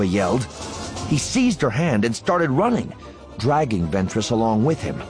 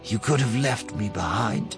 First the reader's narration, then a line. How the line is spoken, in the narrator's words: said quietly